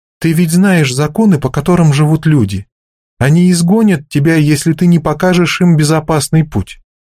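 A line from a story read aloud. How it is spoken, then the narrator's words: Calm. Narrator (Russian): Пойли спокойно сказала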